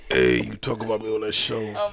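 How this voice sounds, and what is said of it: Put-on deep voice. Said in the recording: “it's a deep voice.”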